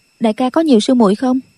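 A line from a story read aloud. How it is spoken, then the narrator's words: Cold question. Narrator (Vietnamese): Nghi Lâm lạnh lùng hỏi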